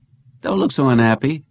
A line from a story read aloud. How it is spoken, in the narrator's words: Jennings said